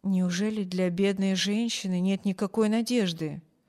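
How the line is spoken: Quiet, hushed question. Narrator (Russian): тихо спросил хозяин мисс Корта, чтобы не слышала больная

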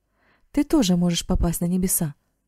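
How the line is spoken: Excited exclamation. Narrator (Russian): воскликнул Марк, и глаза его оживленно заблестели

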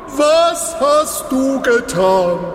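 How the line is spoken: Shouting at someone. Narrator (German): schrie Balak ihn an

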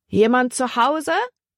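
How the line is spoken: Calling out. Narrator (German): rief Libby

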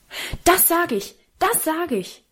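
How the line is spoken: Shouted very loudly. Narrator (German): rief Karl so laut

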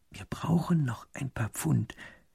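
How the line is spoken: Minister's whisper. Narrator (German): flüstert der zweite Minister dem ersten zu

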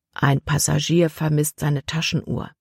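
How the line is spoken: Quiet voice. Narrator (German): sagte Kapitän Norstad Libby mit leiser Stimme

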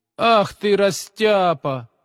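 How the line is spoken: Mocking teasing boy. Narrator (Russian): насмешливо поддел его двоечник Витя, который не выносил отличников

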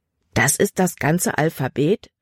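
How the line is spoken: Plain. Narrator (German): fragte Jordan

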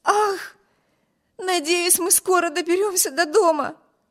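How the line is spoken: Exclaimed. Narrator (Russian): воскликнула Эми

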